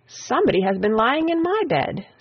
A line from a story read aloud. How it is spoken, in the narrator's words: said the Middle Bear, in her middle voice